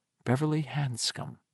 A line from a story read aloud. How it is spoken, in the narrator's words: he whispered the words